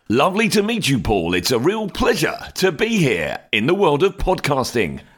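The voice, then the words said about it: Smooth radio announcer voice. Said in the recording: “radio voice man, right? ... the radio voice man”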